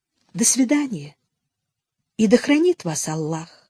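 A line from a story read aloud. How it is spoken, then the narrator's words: Softly said. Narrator (Russian): Мягко сказала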